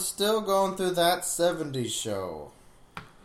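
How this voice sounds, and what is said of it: Usual voice. Nothing is said of it.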